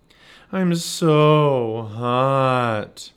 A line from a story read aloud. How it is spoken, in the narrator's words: Merle groaned